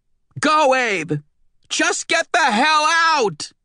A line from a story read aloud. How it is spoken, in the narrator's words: she was screaming